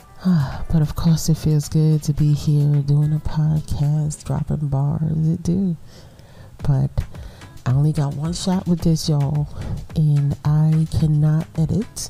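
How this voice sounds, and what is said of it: Congested, whispery voice. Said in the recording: “this tiny whisper I'm trying to do here ... I really feel like I'm whispering ... I'm so stuffy”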